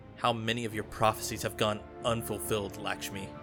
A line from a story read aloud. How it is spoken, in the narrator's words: Ikora snapped